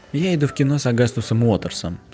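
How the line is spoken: Plain. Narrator (Russian): сказал я

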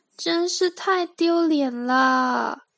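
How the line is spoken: Mournful sigh. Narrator (Chinese): 露西哀叹道

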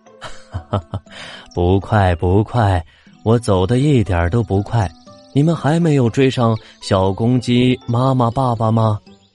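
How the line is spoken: Laughing, cheerful. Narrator (Chinese): 山羊先生还是笑着说

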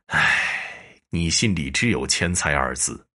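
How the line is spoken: Sorrowful long sigh. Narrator (Chinese): 石半仙面色凄然，长叹道

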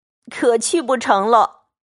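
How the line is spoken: Laughing. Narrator (Chinese): 宝玉…笑道

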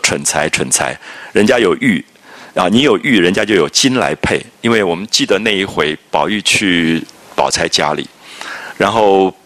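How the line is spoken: Sighing. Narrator (Chinese): 黛玉……叹口气说

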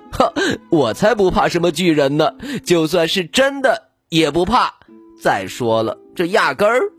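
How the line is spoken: Laughing. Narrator (Chinese): 比利笑起来

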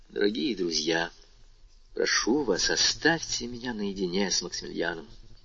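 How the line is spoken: Gentle, paternal, commanding. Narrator (Russian): он сказал им отечески мягко и повелительно

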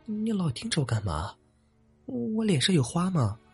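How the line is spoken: Discontented mutter. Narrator (Chinese): 最后，终于不满的嘟囔道

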